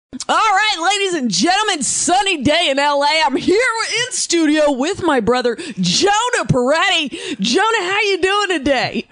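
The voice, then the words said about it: Put-on radio announcer voice. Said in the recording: “Why are you talking like that? ... I do a real, like, radio voice”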